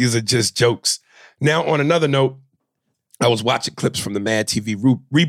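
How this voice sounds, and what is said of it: Usual voice. Nothing is said of it.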